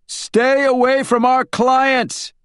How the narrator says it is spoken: he yelled

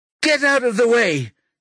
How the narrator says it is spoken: shouts again

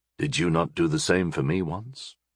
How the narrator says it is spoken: He asked quietly

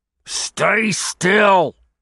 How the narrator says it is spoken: Gibbons growled

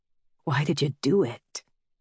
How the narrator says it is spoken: He asks in a fervent murmur

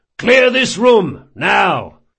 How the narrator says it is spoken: Locke bellowed

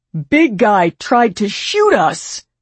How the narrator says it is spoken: Jamie yelled

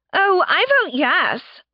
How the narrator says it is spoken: Laura chirped

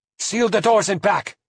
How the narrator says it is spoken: he cried

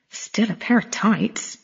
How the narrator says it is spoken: she muttered

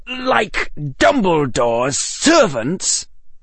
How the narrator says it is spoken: spat

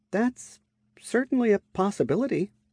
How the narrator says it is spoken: I admitted with a sigh

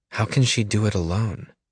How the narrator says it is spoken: Peggy sighs

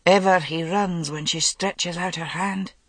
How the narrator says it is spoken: Gareth frowning, and muttered

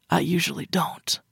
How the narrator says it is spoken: Rex whispered back harshly, sounding frustrated and also winded

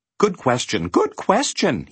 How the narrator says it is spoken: he exclaimed

